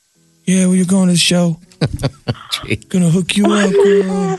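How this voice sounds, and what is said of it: Creepy imitation of another person's voice. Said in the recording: “That's a creepy voice... that's Justin Bieber”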